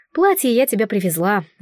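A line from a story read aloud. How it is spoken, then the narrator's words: Sighing. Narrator (Russian): вздохнула жрица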